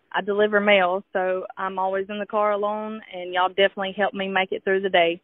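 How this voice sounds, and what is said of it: Southern US accent, sing-song. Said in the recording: “that is one of my favorite accents ... I love the Southern accent ... There's just such a kindness to it ... It's very sing-song”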